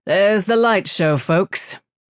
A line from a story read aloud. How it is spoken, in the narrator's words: he said, sounding grimly amused